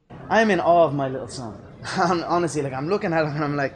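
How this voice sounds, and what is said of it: Irish accent. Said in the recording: “who doesn't love the Irish accent?”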